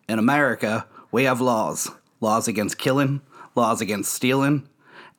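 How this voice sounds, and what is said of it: Put-on Southern American accent. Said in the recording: “How much did you practice that Southern accent?”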